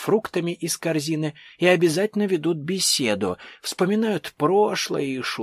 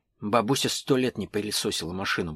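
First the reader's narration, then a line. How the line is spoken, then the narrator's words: Muttering. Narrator (Russian): буркнул иноземцев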